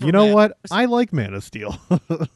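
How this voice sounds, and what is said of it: Imitates another person's voice. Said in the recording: “that's my impression of you taking a shower.”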